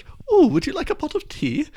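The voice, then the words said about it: Mock posh British accent. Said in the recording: “Can you speak in a British accent? ... can you try and do an impression of an American doing a British accent? ... they go very much to Queen ... a very southern kind of posh accent”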